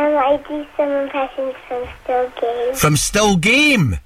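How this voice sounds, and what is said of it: Usual voice. Nothing is said of it.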